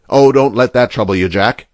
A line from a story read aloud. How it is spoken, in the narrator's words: said Mr